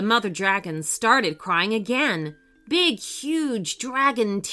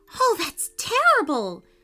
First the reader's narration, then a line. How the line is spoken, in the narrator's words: she cried